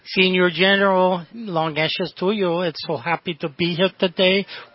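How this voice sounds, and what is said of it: Put-on Mexican accent. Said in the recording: “let me do my Mexican accent with Frito Bandito”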